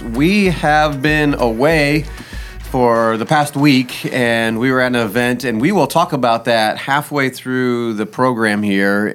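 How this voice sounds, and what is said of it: Hoarse, worn-out voice. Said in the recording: “as you can tell by my voice ... my voice is a little bit shot. I came back a little sick”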